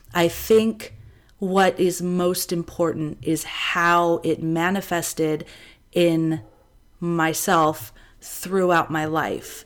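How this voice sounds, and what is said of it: Congested, stuffed-up voice. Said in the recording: “I sound a little stuffed up, I have a cold”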